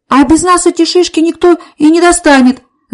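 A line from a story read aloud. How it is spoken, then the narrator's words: Desperate shout, boy. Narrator (Russian): закричал мальчик с отчаянными синими глазами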